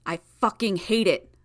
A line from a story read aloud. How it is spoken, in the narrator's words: Brian growled at the girl, putting emphasis on the swear